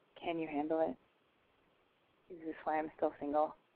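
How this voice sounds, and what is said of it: Put-on sexy voice. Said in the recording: “This is my sexy voice ... That's my normal voice, the non-sexy voice”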